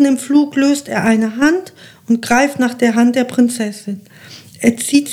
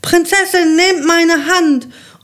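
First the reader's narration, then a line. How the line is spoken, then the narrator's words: Calling out. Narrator (German): ruft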